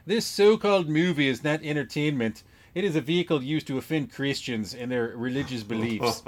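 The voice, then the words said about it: Put-on Minnesota accent. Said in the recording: “I'm going to read it in a Minnesota accent to the best I can.”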